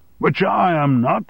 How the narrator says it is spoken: shouted Armstrong

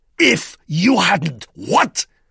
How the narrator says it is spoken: He shouted savagely

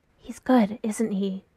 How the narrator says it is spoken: Kayla whispers

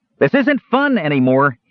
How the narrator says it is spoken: he shouted

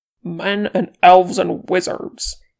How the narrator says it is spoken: he spat

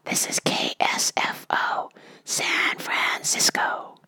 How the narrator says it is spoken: the radio said in just the tiniest whisper

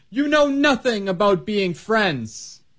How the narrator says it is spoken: she yelled

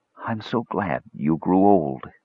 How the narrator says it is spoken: she whispered

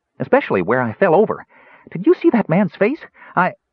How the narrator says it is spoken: Tass commented breathlessly

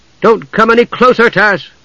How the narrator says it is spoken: Palin cried fearfully

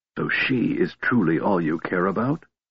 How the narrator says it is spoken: He whispered caustically

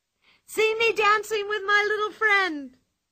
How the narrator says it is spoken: cried Pippi

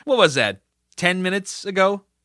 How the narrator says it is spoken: He laughed

